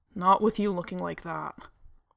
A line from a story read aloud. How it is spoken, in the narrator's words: Dean growled